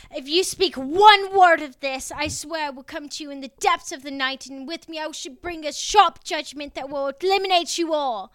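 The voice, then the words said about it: Theatrical English witch accent. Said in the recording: “I did a witch accent... English witch accent... That was actually a better English accent than I thought she was going to bust out.”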